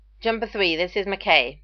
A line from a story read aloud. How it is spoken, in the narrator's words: McKay snapped